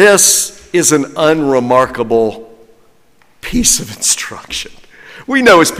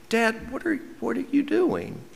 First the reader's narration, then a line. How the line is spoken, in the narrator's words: His little girls asked him gently